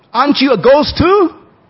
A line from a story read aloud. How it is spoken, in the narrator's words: said angrily